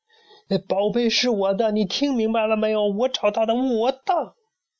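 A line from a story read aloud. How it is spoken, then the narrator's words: Child shouting while running. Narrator (Chinese): 小胖墩儿一边跑一边回头喊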